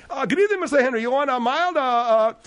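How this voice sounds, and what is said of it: Put-on Sri Lankan accent. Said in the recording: “I'm just doing my version of a Sri Lankan accent.”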